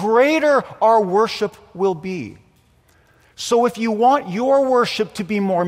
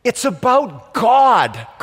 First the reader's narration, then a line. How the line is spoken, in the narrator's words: cried the homiletics professor